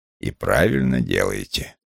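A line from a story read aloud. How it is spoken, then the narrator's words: Gloomy, irritated pronouncement. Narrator (Russian): мрачно изрек Вулф, так как женщина, давшая волю чувствам, для него невыносима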